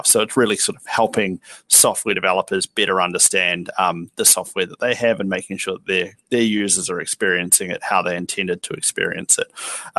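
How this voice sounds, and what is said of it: New Zealand accent. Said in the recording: “headquartered in Wellington, New Zealand, which is why I have a bit of a funny accent”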